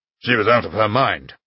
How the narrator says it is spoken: said the old man sharply

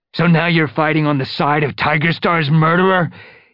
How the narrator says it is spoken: he taunted Darkstripe

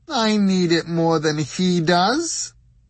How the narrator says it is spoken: she wailed

